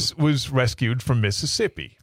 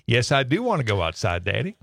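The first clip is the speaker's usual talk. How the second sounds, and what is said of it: Put-on Southern accent. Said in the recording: “she had a bit of a southern accent ... she answers in a southern accent.”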